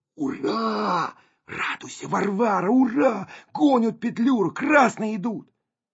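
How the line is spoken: Breathless stage whisper. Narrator (Russian): Колька перевел дух и крикнул суфлерским шепотом

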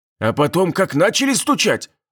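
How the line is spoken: Watchman exclaiming. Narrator (Russian): воскликнул сторож

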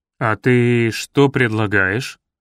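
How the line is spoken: Very gloomy question. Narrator (Russian): Совсем мрачно осведомился участковый

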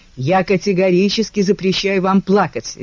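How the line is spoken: Barking. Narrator (Russian): рявкнул он

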